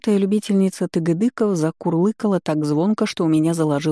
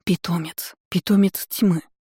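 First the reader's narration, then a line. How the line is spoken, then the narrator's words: Stunned breathless exclamation. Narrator (Russian): выдохнула ошарашенно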